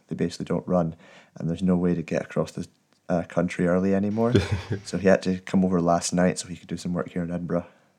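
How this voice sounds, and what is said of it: Sharp Scottish accent. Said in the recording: “you have quite a... Sharp accent... the Scottish accent”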